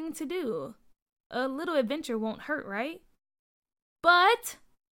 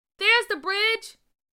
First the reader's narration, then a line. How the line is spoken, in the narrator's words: Nathaniel yelled